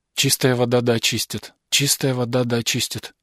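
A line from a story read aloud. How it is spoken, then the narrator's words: Muttering from above. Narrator (Russian): бормотал голос сверху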